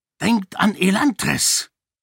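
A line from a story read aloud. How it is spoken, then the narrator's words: Hissing. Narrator (German): zischte eine Stimme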